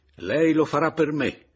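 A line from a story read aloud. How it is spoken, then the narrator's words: Energetic shout. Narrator (Italian): gridai energicamente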